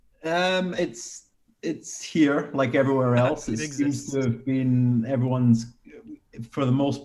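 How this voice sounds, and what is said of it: Strong Scottish accent. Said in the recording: “he's got a really strong Scottish accent”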